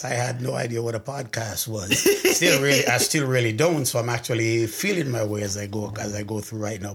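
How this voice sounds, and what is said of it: Jamaican accent. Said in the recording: “I hear you have an accent ... I'm actually from Jamaica, parish of Clarendon”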